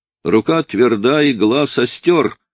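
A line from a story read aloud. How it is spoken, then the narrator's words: Laughing. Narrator (Russian): смеялся я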